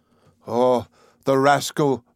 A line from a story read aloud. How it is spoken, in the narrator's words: Conseil exclaimed